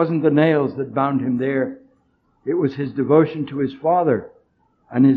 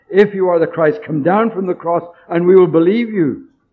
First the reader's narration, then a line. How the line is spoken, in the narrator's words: cried